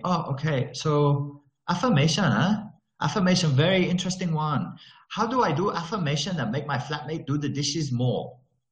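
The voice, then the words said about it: Put-on Malaysian English accent. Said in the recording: “Do you like my Malaysian accent, by the way? ... That's Malaysian accent.”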